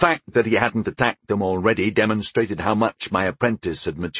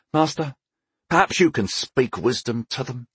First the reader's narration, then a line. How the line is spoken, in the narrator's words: he said, his voice heavy with frustration